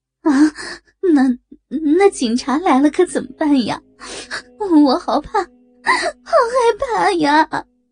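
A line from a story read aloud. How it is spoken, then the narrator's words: Crying, frightened. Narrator (Chinese): 张凯丽哭着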